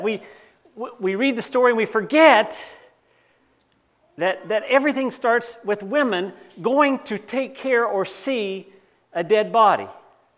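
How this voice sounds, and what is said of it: Slight North Carolina accent. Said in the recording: “I grew up in North Carolina... some of you can hear it in my accent. No matter how hard I try to speak Canadian, you still hear those little twinges.”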